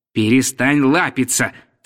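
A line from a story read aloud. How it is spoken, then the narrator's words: Stern. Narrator (Russian): сказал строго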